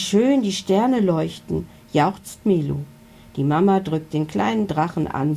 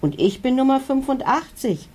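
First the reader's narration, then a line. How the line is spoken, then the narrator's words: Called out. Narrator (German): ruft ein anderer Dino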